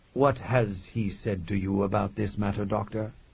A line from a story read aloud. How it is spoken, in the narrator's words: Alexander asked blandly